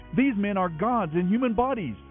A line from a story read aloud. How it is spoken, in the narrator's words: they shouted in their local dialect